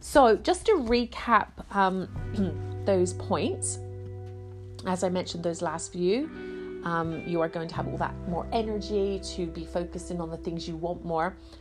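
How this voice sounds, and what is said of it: Congested voice from a cold. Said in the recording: “I feel like I've got a bit of a cold.”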